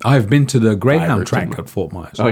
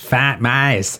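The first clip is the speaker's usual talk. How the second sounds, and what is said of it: Put-on Boston accent. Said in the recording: “That's my Boston accent. ... Boston accent. Yeah, that's pretty good.”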